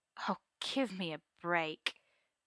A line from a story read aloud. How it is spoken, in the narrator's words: Merlin sighs, wearily